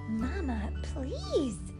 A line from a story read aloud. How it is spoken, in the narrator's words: hissed Sister from the sideline